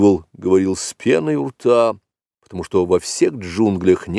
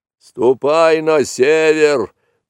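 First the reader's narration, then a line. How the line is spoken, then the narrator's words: Angry bellow, buffalo. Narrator (Russian): проревел сердито буйвол, потому что Маугли кольнул его довольно сильно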